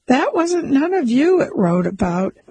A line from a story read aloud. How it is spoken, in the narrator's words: he laughed to show that he had been right all the time